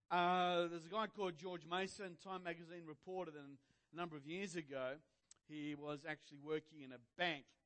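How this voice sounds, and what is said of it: Australian accent. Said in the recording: “our Australian accent”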